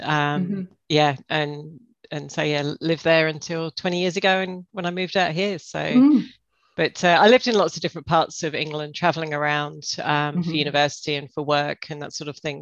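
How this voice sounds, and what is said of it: Mild English accent, slightly Australian. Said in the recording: “you hail from England?... I have to tell by my accent... I don't think your accent's that strong... it wasn't as thick as what I was expecting it to be... I'm definitely getting an Australian accent... it sort of rounded my accent off”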